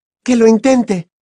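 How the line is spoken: Shrill retort. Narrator (Spanish): replicó Hermione con voz chillona

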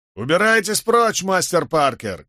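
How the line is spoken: Shout from crowd. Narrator (Russian): крикнули в толпе

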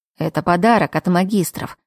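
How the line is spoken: Scoffing. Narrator (Russian): хмыкнул Лерой

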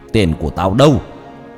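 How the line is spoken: Angry shout. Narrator (Vietnamese): quát lên

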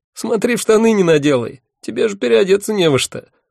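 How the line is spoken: Mocking. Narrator (Russian): насмешливо сказал все тот же голос

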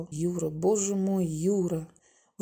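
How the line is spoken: Breathless exhale. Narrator (Russian): выдохнул Володя

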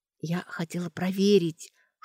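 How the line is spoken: Whispered. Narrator (Russian): шепотом сказала Сашка

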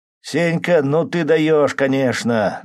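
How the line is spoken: Shouting over each other. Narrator (Russian): наперебой кричали динамовцы

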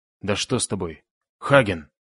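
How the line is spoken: Inhuman roar. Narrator (Russian): Он взревел нечеловеческим голосом, таким, что даже дальние приостановились

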